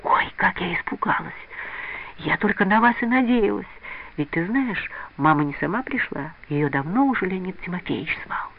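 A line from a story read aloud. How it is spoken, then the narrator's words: Happy relieved whisper, female. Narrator (Russian): Нюра, счастливая, что все обошлось благополучно, шепотом говорила Лиде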